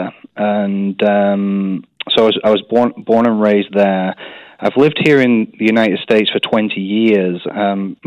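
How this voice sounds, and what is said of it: English accent. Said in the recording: “they all think I talk like an American now ... I haven't completely lost my English accent”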